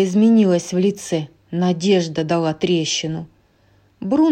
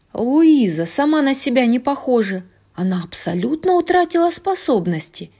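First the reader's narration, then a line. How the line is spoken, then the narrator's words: Exclaiming. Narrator (Russian): воскликнула Джульетта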